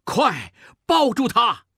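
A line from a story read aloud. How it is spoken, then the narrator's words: Shouting. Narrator (Chinese): 孟梅喊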